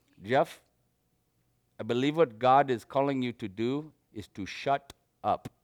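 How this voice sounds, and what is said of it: Put-on Indian accent. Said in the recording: “I'm going to use my Indian accent”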